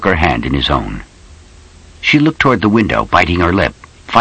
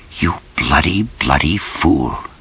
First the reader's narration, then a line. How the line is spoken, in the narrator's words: she whispered